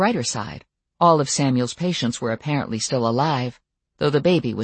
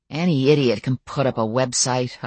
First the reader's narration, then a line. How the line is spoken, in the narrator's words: I growled